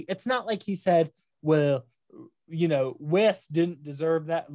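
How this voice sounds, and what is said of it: Put-on Southern accent. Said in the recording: “Look, I'm doing a Southern accent. ... I'm doing my Donny Boaz accent.”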